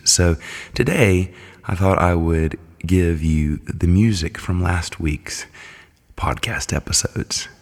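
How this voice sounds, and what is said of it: Congested, under-the-weather voice. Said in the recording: “as you can probably tell from my voice, it is under the weather... have had a lot of sinus issues”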